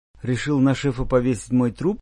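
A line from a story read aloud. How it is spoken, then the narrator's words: Knowing mutter. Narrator (Russian): понимающе пробормотал Клом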